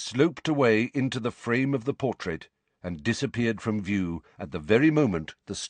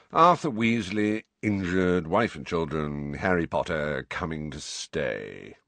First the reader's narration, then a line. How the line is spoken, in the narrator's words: recited Phineas in a bored voice